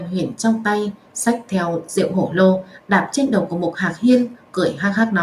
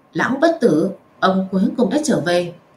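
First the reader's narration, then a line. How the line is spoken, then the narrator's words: Smiling. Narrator (Vietnamese): Diệp Vũ cũng lộ ra vẻ mỉm cười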